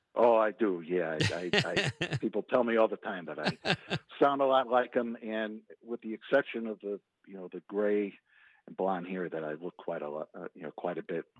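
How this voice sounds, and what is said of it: Slight Chicago accent. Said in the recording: “You have a little bit of that Chicago accent”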